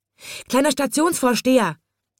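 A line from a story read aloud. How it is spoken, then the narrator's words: Excited call. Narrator (German): rief ganz aufgeregt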